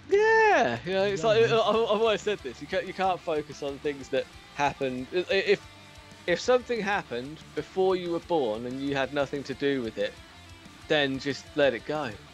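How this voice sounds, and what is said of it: British accent. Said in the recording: “that tremendous British accent”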